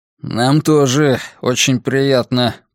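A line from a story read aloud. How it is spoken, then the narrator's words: Through gritted teeth. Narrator (Russian): процедил Грюнвальд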